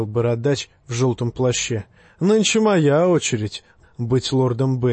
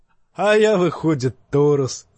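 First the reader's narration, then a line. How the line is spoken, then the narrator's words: Laughing. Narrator (Russian): засмеялся певец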